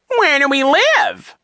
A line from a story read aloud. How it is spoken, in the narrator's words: He said in his high, mocking tone